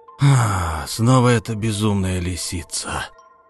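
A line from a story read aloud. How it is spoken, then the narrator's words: Growled. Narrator (Russian): прорычал он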